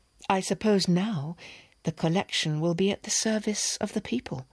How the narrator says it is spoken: I said at last, timidly

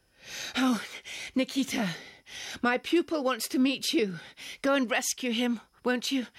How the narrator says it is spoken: gasped

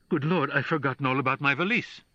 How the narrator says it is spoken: he cried

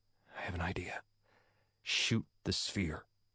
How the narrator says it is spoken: the explosives expert whispered to Da Xia

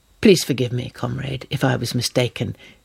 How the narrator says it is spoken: said Slavkin gravely

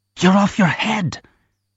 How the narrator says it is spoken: Ptitsin whispered suddenly

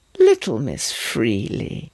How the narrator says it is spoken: she drawled

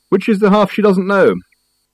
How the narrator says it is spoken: Richard sighed

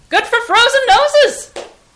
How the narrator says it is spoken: Grandfather would be overcome with delight, breaking out into jolly laughter and shouting

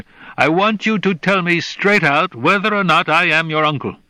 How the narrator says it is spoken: exclaimed the senator

